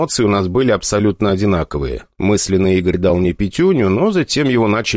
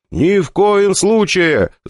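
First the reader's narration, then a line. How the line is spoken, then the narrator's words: Yelling in unison. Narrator (Russian): заорали мы с Игорем в один голос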